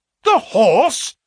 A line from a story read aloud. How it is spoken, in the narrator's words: cried both the colonel and myself